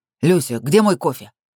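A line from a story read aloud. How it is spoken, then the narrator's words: Barking, growling tone. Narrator (Russian): Рявкает на той же рычащей ноте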